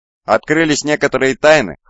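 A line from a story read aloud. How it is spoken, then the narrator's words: Wry snort. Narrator (Russian): хмыкнул он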